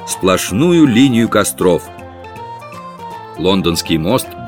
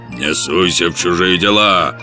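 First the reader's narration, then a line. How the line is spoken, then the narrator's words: Rude, curt. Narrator (Russian): грубо отрезал Кенти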